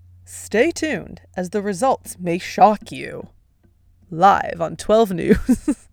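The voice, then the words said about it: Mock news anchor voice. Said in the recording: “in my best news anchor voice”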